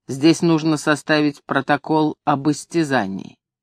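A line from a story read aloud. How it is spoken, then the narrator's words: Calm, low muffled bass. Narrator (Russian): доктор, он сказал спокойно глухим басом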